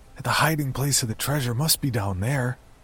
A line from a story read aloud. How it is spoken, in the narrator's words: blurted out